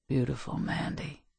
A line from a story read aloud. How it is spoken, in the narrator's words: he whispered